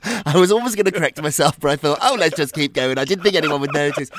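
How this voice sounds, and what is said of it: British accent. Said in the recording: “this ridiculous accent ... it's the British way of saying things ... your British accent”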